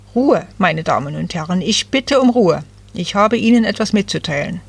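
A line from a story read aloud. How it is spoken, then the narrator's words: Stern man calling out. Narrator (German): einer der streng aussehenden Männer rief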